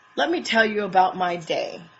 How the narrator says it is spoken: says angrily

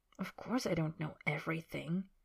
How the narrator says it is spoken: Harry says quietly

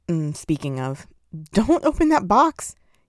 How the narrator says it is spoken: he yelped

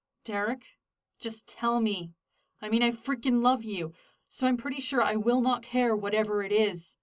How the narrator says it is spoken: Styles pleaded

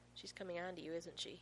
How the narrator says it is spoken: He murmurs

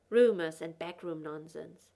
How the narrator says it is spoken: Gordon snapped

